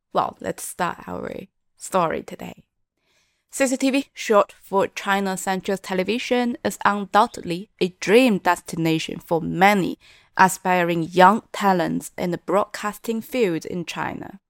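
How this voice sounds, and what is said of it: Husky, congested sick-sounding voice. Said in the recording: “I hope you'll enjoy my sexy voice as I am having a cold.”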